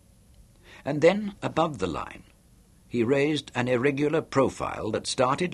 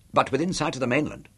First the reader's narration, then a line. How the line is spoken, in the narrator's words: He asked quickly